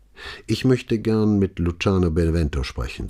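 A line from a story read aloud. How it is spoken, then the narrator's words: Plain. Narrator (German): sagte Brunetti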